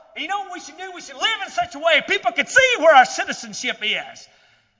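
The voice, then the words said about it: Southern American accent. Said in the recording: “my southern accent ... people hear my accent, they're like, "You're not from around here, are you?"”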